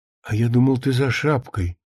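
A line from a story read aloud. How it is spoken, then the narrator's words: Said with a sigh. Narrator (Russian): сказал Ефим, и почему-то вздохнул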